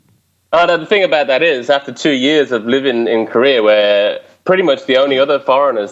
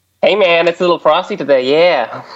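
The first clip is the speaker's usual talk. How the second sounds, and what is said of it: Bad put-on American accent. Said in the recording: “I got the worst American accent you've ever heard, man. I sound like I'm Big Gay Al from South Park or something. ... That's American. ... That was my American accent”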